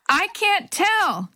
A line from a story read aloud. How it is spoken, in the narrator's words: Jenny shouted back